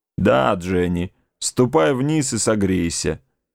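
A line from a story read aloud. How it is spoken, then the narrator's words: Grumble. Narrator (Russian): проворчал он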